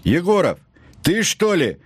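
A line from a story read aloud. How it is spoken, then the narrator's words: Shouted from a distance. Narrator (Russian): крикнул с кормы Корнеич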